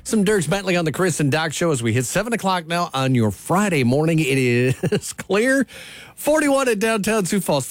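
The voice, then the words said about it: Sing-song kindergarten-teacher tone. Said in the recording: “I sounded like a kindergarten class teacher”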